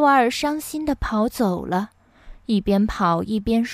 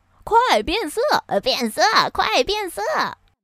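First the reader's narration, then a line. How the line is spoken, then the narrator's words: Laughing loud shouts. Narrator (Chinese): 其他的灰狼也笑着 大声叫道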